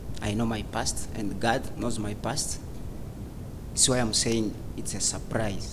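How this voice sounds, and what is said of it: Speaks English with an accent. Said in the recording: “I'm sorry for my accent”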